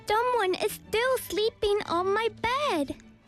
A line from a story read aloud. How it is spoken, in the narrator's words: Baby Bear shouted